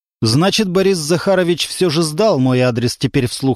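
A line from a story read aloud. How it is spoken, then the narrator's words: Plain. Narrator (Russian): сказал Константин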